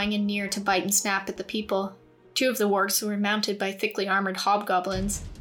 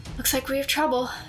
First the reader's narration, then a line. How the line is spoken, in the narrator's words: Shale breathed